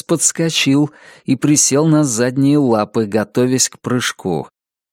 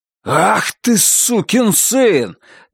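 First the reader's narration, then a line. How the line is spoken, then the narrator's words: Furious roar. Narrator (Russian): Грег взревел от ярости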